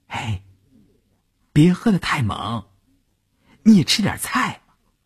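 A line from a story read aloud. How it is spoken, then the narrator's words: Soft, apologetic. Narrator (Chinese): 乌云…心里过意不去…小声地说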